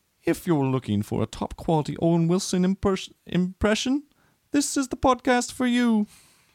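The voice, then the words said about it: Attempted British accent. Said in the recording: “Do it in a UK accent, though. ... How many UK accents are there?”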